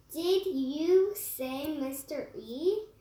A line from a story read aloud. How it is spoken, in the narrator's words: she asked